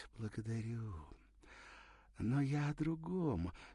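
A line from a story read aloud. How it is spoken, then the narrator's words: Languid voice. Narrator (Russian): сказала томным голосом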